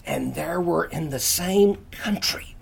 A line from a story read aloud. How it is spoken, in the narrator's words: Miss Pinckney loudly whisper